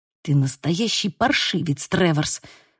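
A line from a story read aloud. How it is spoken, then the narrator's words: Hissing. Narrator (Russian): прошипел Лука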